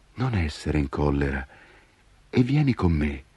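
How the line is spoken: Child speaking sweetly. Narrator (Italian): il bambino sorrise dolcemente e disse

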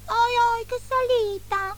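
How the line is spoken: Whimpering. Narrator (Italian): piagnucolò Baffo

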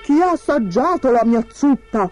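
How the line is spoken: Thundering voice. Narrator (Italian): tuonò Babbo Orso

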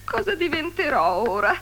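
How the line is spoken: Sobbing. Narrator (Italian): singhiozzava

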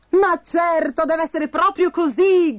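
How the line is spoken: Shouted. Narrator (Italian): gridò Bastoncello

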